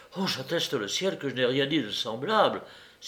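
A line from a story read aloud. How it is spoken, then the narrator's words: Frightened young man crying out. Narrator (French): s'écria l'étudiant effrayé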